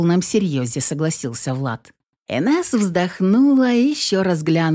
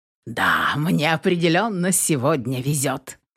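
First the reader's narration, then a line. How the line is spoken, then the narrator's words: Laughing answer. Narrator (Russian): смеясь, ответил Влад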